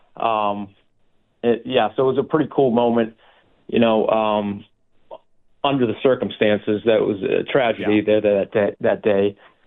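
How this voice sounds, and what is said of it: Boston accent. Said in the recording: “you mentioned your Boston ties, and your accent gives you away”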